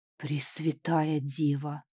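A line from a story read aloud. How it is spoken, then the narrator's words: Breathless exhale. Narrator (Russian): выдохнул Гудфруа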